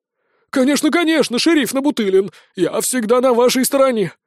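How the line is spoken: Guilty smiling babble. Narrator (Russian): Виновато улыбнувшись, пролепетал Мойша

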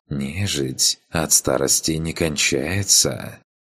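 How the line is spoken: Insinuating female voice. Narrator (Russian): вкрадчивым голосом произнесла демонесса

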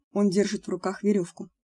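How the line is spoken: Muttering. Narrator (Russian): пробормотал Локвуд

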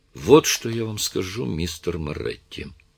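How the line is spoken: Even, level voice. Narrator (Russian): произнесла Дженнифер ровным голосом

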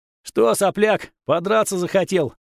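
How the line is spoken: Shouted. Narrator (Russian): выкрикнул Верзила со шрамом на лысой черепушке и недостатком передних зубов

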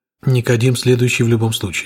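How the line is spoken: Calm agreement. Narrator (Russian): спокойно согласился я

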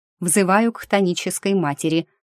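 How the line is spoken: Snorting. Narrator (Russian): хмыкнула я

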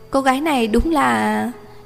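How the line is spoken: Surprised, resigned smile. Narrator (Vietnamese): Giang Mặc Viễn hơi ngạc nhiên, sau hồi lâu bất đắc dĩ mỉm cười

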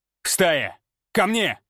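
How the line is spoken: Silent mental bark. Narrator (Russian): Мысленно рявкнул я

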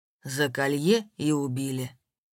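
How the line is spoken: Gloomy pronouncement. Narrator (Russian): мрачно изрёк Степан

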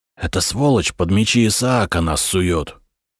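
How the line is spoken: Whisper in ear. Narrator (Russian): шепнул Патрике Петр на ухо Юсту из рода Киониев

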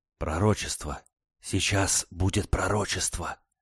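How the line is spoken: Excited crowd whispering. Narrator (Russian): возбужденное перешептывание публики

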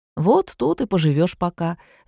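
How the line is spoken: Cheerful. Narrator (Russian): весело сообщил Ромочка

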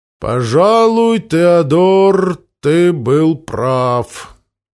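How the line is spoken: Doubtful drawl. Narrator (Russian): протянул с сомнением

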